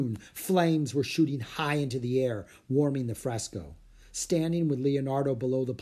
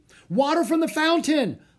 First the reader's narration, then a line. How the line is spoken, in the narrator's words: Leonardo roared